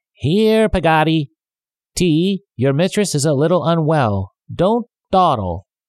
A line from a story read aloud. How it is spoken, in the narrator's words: shouted